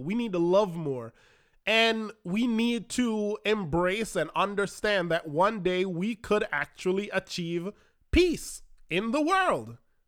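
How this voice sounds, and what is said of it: Congested, allergy-strained voice. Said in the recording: “apologize for my voice, because allergies are killing me right now”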